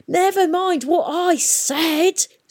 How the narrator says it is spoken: screamed Peavy

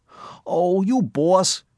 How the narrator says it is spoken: he cried

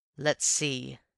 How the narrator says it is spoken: said Raffles grimly

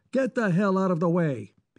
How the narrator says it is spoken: he shouted

